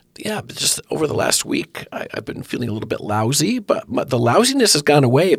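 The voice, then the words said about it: Hoarse, weak voice. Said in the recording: “hoarsely voiced host ... my voice is weak ... this weak voice is just still lingering”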